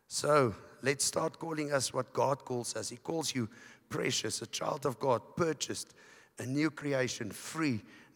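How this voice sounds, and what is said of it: Hoarse, strained voice from illness. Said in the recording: “I got sick. I lost my voice. ... where my voice stops”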